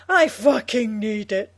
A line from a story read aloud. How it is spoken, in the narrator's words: Janet says desperately